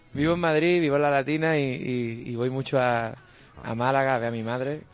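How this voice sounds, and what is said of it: Málaga Andalusian Spanish accent. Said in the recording (Spanish): “es malagueño, ay, con su propio acento”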